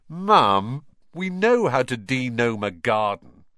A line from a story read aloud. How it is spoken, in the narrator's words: George groaned